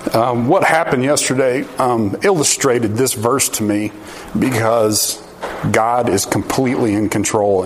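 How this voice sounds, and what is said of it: Choked up, emotional voice. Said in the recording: “I'm a little choked up.”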